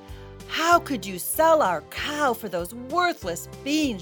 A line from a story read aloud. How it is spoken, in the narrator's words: she cried